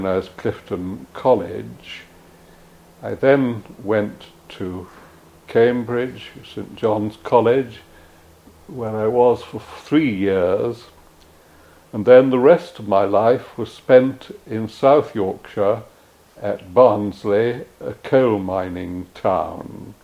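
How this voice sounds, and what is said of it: Upper-class English accent. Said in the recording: “my accent is an upper-class English accent”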